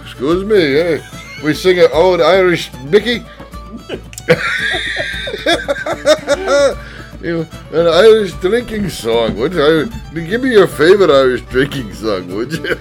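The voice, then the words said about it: Put-on Irish accent, slipping. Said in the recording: “we do the rest of the episode in Irish? ... you fell out of accent at the end there, wee boy.”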